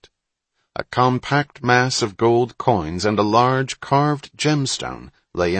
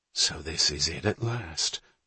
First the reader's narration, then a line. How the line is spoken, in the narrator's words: breathed Hatch